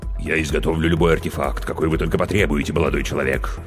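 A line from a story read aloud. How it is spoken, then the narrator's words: Tearful deep bass. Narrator (Russian): пробасила трагедия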